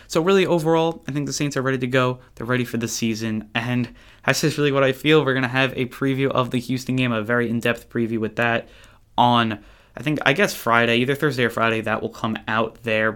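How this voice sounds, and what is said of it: Excited, energetic voice. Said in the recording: “I'm so excited for it, guys. I don't know if you could hear it in my voice, but I am so excited”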